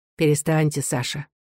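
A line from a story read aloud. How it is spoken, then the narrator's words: Calm. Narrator (Russian): спокойно сказал Николай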